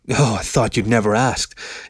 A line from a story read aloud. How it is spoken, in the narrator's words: he said with a smug chuckle